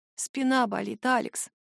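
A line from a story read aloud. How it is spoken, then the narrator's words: Barely audible. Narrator (Russian): произношу едва слышно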